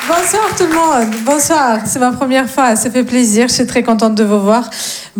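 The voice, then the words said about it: Slight singsong Russian accent. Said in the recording (French): “j'ai un petit accent, mais il est très mignon, très chantant ... est-ce que c'est un accent plutôt spaghetti? Plutôt l'arme nucléaire ... Non, je viens de Russie.”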